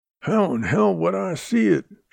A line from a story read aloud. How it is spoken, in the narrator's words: Shorty growled